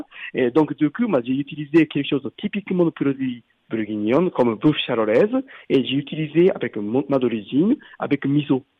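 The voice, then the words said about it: Japanese accent speaking French. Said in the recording (French): “avec mon accent, moi, je suis d'origine japonaise, je viens de Tokyo”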